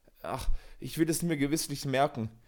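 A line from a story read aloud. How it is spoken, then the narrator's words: Sighing reply. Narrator (German): erwiderte Kohlenpeter seufzend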